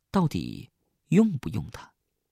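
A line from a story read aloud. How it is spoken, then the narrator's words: Soft question. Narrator (Chinese): 小桃 轻声的问我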